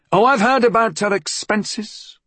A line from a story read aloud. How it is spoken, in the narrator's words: his mother would shout back